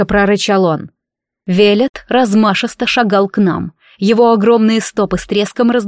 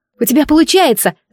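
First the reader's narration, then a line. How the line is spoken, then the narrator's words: Hopeful shout in rain. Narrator (Russian): закричала я, чувствуя, как ливень больно бьет по спине, но в груди теплится надежда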